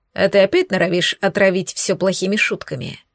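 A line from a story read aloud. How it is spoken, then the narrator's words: Calm. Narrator (Russian): Эйнар говорил спокойно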